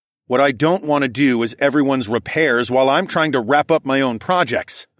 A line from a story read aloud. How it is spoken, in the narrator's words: I snapped at Cad